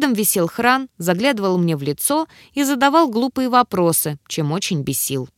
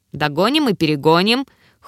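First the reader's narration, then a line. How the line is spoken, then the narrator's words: Sullen grumble. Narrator (Russian): хмуро буркнула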